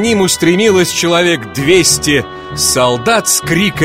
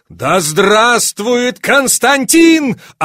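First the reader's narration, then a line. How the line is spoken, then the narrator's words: Soldiers shouting together. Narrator (Russian): орали солдаты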